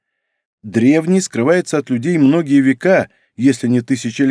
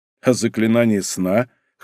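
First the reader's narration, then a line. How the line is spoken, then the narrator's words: Snort. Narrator (Russian): хмыкнул Нарухито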